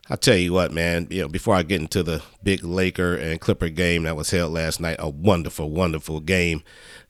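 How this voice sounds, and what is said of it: Sick, under-the-weather voice. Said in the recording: “as you can tell by my voice, I am under the doggone weather”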